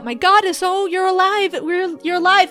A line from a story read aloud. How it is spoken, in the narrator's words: They're all starting to shout